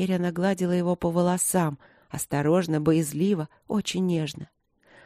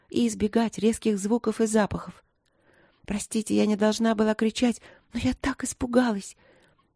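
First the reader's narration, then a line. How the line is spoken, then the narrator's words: Quiet. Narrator (Russian): говорила Алина тихо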